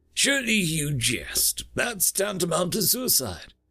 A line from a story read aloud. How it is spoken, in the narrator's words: exclaimed Zalwan, shocked by the very idea